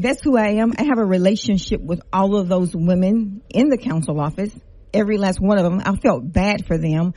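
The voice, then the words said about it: Louisiana Creole accent. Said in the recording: “i'm from lafayette country girl all black you can hear the creole accent”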